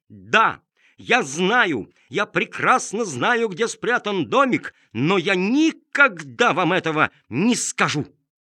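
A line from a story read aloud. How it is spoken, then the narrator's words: Shout. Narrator (Russian): прокричал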